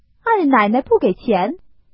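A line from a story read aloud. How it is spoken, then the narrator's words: Laughing. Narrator (Chinese): 鸳鸯 笑道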